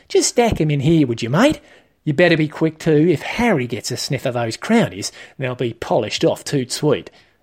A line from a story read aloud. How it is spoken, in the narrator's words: Aaron exclaimed